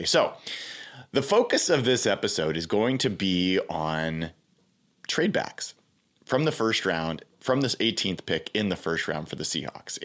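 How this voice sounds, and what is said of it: Congested, slightly sick voice. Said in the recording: “I'm a little bit under the weather, so my voice is as good as it's going to be. I'm a little congested.”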